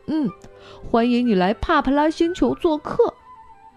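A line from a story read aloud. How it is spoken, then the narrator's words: Smiling. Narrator (Chinese): 米莉笑着说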